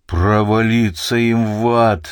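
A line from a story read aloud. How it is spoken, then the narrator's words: Furious growl. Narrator (Russian): в ярости прорычал великий Доместик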